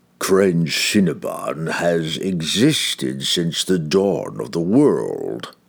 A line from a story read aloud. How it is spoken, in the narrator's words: the demon rasped